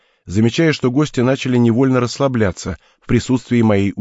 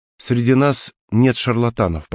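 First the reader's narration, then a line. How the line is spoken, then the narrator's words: Soft. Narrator (Russian): продолжил мягко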